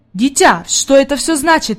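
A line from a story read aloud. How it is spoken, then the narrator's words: Exclaimed. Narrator (Russian): воскликнул господин Сесмон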